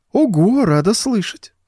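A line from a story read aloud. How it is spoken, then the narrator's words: Cooing. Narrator (Russian): проворковала она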